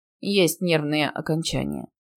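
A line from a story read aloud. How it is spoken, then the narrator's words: Reluctant mutter. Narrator (Russian): пробормотал, не желая вдаваться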